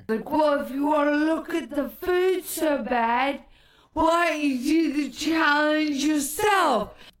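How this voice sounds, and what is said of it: Bad impression with unplaceable accent. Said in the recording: “This is a bad impression ... I don't know what the fuck country I came from in that accent”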